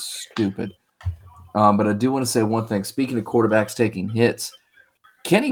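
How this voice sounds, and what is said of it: Usual voice. Nothing is said of it.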